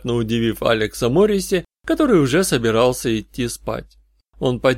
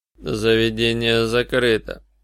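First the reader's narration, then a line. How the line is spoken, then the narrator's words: Icy announcement. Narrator (Russian): объявил Алекс ледяным тоном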